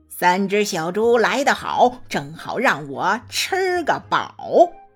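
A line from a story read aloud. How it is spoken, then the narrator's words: Hearty laughter. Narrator (Chinese): 他 哈哈大笑地说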